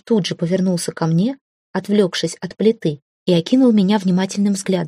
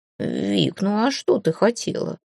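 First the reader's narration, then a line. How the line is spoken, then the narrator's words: Smirking. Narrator (Russian): хмыкнул Филя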